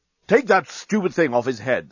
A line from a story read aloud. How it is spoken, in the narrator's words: snapped Bolfast